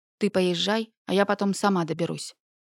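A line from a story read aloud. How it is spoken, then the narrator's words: Forced calm. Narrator (Russian): предложила я настолько спокойно, насколько могла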